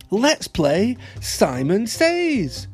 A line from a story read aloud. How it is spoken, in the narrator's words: cried